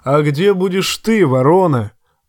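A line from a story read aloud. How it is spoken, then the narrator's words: Thunderous booming voice. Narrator (Russian): громовым голосом спросил Боррок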